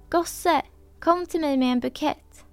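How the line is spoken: Calling out. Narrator (Swedish): ropade till honom

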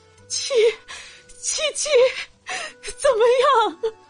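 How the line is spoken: Tearful, violently trembling voice. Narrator (Chinese): 忍了一个晚上的泪水，再也控制不住，声音剧烈的颤抖着

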